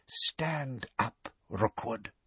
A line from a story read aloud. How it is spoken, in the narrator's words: whispered Harry